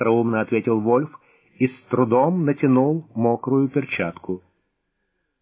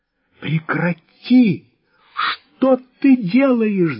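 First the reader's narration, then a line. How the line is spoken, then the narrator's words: Shouted. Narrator (Russian): закричала Софья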